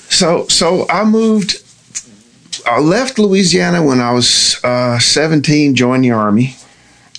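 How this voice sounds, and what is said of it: Southern American accent. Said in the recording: “I immediately pick up the Southern accent”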